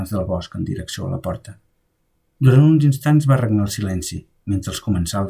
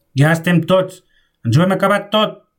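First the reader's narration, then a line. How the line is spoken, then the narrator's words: Shouting again. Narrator (Catalan): va cridar Milans del Bosc una altra vegada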